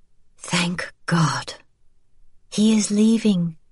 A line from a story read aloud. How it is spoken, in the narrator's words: she murmured to the boy